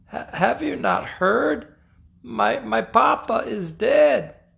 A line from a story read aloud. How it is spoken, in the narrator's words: she said, choking back tears